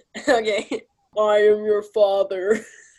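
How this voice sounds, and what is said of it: Weak Darth Vader voice impression. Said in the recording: “your impression of Darth Vader ... Mine's really bad.”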